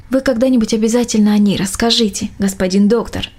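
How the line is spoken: Plain. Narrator (Russian): ответила мельничиха

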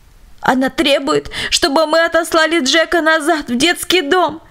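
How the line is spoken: Indignant sobbing. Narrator (Russian): поведала она дочери с возмущенным всхлипыванием

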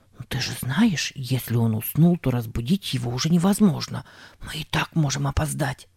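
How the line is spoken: Rapid whisper. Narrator (Russian): скороговоркой прошептал Сэм

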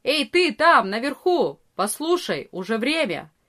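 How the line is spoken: Loud shout. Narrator (Russian): Арея кричал громко

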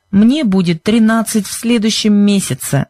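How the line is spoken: Remarked angrily. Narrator (Russian): заметил Бен сердито

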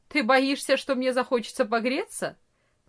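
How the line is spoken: Mocking reply. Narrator (Russian): насмешливо ответил Франц

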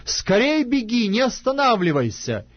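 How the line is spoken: Shouting after someone. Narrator (Russian): И опять кричал Иоаннафан вслед отроку

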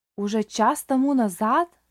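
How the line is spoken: Old man's exclamation. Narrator (Russian): воскликнул старик

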